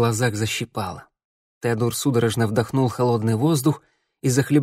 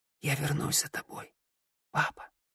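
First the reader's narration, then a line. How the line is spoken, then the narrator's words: Whisper. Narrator (Russian): Теодор прошептал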